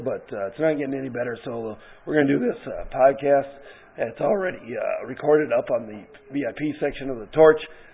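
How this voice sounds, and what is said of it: Hoarse, congested voice from a cold. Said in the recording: “I have a sore throat, I have a bad cold, ... just don't have much voice to talk here”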